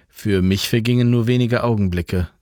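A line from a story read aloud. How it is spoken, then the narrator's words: Plain. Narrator (German): sagte Jan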